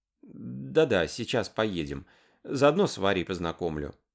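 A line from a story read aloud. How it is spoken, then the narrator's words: Mumble. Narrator (Russian): бормотала Лара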